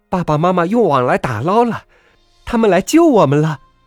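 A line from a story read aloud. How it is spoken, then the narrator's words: Crying out. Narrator (Chinese): 小爱叫起来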